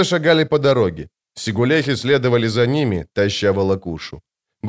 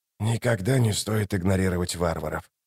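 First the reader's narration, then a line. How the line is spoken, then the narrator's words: Whisper. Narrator (Russian): прошептал Ток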